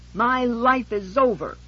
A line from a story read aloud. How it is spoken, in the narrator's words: she screamed